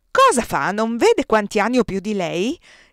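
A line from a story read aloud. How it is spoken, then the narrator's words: Exclaiming. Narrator (Italian): esclamò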